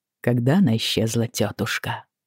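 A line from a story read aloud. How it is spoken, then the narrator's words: Quiet question. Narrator (Russian): тихо спросил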